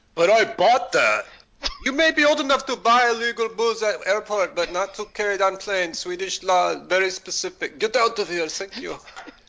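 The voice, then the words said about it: Put-on Swedish accent. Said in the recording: “that's how her voice sounded. ... You know, Swedish accent.”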